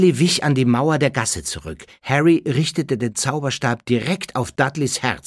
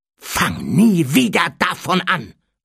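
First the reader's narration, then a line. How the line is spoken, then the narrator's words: Hissed angrily. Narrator (German): fauchte Harry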